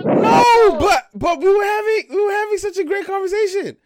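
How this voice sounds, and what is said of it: High-pitched baby voice. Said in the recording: “this high pitch you're doing. What is that, your baby voice?”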